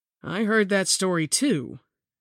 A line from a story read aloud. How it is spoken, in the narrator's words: Tim replied